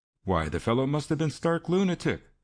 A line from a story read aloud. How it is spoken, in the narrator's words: Jervis exclaimed